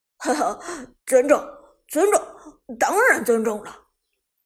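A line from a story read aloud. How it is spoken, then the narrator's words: Chuckling. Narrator (Chinese): 嘿嘿一笑，道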